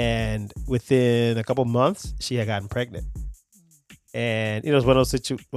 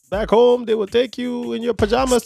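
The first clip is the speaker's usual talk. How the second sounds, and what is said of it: Imitates father's accent. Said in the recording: “Dad's accent.”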